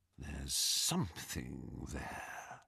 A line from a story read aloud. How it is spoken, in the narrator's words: he whispered